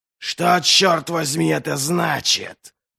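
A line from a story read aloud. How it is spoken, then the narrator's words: Growled. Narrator (Russian): прорычал он Висбруку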